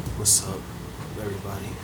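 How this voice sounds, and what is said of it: Whispered greeting. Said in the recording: “Why are you whispering?”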